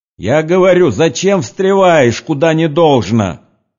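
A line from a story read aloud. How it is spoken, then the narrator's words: Shouting from one side. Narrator (Russian): кричали с одной стороны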